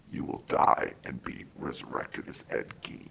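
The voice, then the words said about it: Dark menacing character voice. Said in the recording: “it's speaking like in that same dark voice. And I'm going to do it. I'm going to do the thing.”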